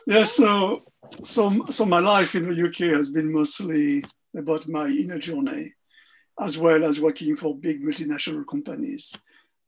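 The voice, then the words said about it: French Parisian accent. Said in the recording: “your accent places you as you're French or from Belgium? ... Your fabulous Parisian accent”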